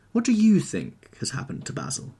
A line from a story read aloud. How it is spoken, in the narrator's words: asked Dorian, wondering how it was that he could discuss the matter so calmly